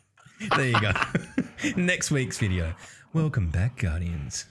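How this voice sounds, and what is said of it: Mock boring lore-narrator voice. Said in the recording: “your boring lore voice”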